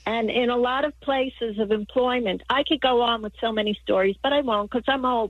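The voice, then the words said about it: New York accent. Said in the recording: “I am from New York ... Okay, the accent.”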